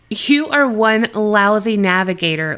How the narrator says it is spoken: laughed Bill

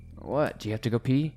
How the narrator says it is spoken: He mumbles

